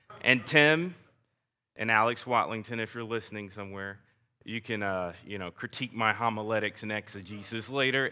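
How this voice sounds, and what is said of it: Southern American accent. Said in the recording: “bear with my southern accent”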